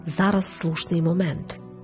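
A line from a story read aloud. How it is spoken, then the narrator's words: Quiet. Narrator (Ukrainian): тихо мовила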